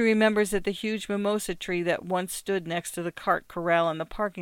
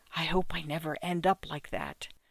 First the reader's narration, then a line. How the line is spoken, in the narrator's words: whispering to you